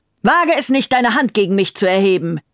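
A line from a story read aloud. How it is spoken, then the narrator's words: Furious shout. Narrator (German): rief Siegfried nun ebenfalls zornig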